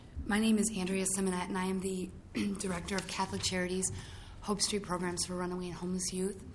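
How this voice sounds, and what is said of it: Hoarse, strained voice. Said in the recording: “I woke up yesterday and I was losing my voice.”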